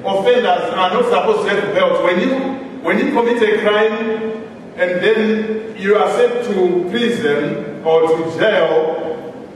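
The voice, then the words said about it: Noticeable accent. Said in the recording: “In case you don't understand my accent.”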